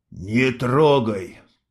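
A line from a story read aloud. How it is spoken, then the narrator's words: Hoarse. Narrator (Russian): хрипло сказал Мустафа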